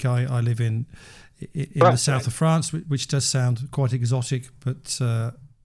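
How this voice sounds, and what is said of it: British accent. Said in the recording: “Despite my accent, I don't actually live in the UK.”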